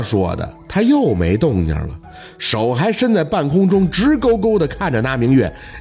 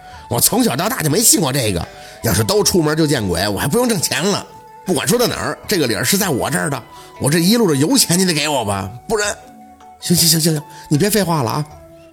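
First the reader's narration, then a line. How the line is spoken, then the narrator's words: Loud clamoring. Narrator (Chinese): 司机嚷嚷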